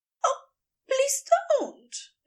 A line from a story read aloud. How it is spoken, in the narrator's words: Aziraphale squeaks out, not entirely sure he means to